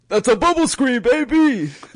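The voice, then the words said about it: Imitates another person's voice. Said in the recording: “I have a good Dickie V impression, don't I? ... Limited fake Dickie V.”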